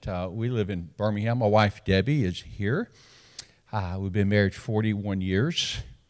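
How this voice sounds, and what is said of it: Southern Alabama accent. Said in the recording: “I'm from Alabama. Can you tell? ... I have a little bit of an accent.”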